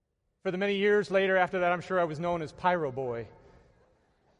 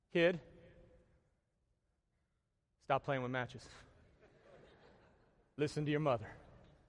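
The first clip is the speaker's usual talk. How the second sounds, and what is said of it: Put-on Texas accent. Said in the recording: “that's a Texas accent”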